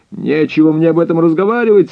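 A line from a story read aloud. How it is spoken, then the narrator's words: Angry shout. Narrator (Russian): со злостью крикнул он мне вслед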